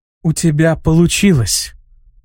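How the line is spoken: Gentle, affectionate. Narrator (Russian): ласково сказала Тиамат

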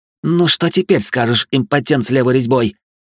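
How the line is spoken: Growling into darkness. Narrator (Russian): рычала баронесса во тьму

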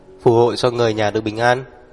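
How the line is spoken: Somewhat shaky voice. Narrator (Vietnamese): Người tài xế có phần run rẩy, vừa nói

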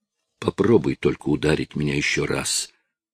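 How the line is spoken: Muttering. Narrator (Russian): пробормотал Ларри

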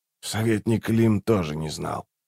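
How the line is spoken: Quiet. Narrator (Russian): тихо сказал Раллик

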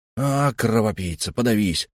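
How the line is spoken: Growling, group. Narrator (Russian): рычали господа

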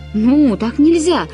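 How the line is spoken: Crowd yelling. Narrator (Russian): завопили все

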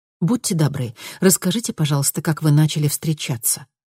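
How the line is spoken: Sharper repeated request. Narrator (Russian): в очередной раз попросила Луиза еще более резко

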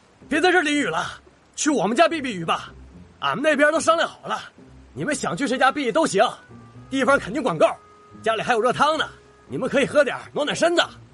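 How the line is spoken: Shouting. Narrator (Chinese): 好些个流民冒雨过来，他们冲着金兰大喊

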